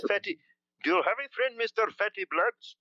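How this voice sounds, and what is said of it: Put-on Indian accent. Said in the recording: “give me your best Indian accent ... I do not do the Indian accent so very good, but have a little bit of an Indian accent that I can bust out for you”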